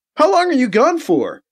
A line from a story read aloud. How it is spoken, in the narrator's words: BC shouts back